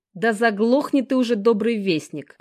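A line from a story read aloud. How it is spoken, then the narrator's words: Growling. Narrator (Russian): прорычал Жека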